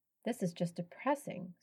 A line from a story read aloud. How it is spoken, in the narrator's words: Sophie muttered